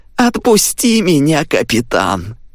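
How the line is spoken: Sudden creaky voice. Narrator (Russian): вдруг проскрипел

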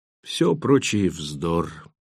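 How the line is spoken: Slightly hoarse, panting. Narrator (Russian): сказала она чуть хриплым голосом, тяжело дыша

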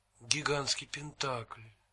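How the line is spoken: Whispering. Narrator (Russian): прошептал он

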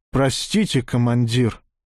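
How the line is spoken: Sighing. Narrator (Russian): Змей вздохнул

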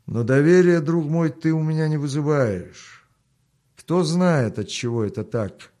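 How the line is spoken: Mocking. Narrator (Russian): насмешливо добавил он

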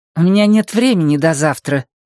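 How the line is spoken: Through gritted teeth. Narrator (Russian): процедила Блум

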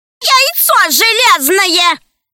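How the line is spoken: Stubborn shouted reply. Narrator (Russian): крикнула в ответ упрямая Алина

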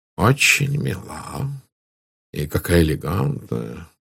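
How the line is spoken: Murmuring. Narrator (Russian): пробормотал Пуаро

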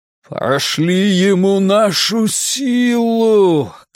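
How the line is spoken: Strange deep shout. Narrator (Russian): крикнул Билл странным басовитым голосом

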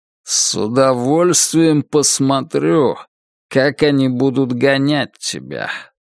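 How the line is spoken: Through gritted teeth. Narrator (Russian): процедил коп

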